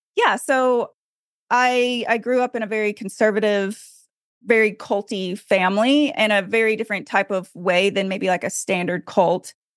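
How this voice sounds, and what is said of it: Arkansas Southern twang. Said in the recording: “I actually live in Arkansas ... if you hear that accent come through ... the twang comes out a little extra strong”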